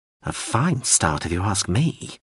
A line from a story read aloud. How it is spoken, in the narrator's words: the drone muttered